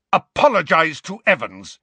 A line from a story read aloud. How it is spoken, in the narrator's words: James roared at Snape